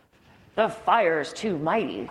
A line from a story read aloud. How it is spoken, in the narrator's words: growled the lion